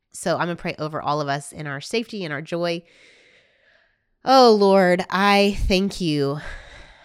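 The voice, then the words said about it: Congested voice from a cold. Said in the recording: “If you couldn't tell, I have a little bit of a cold”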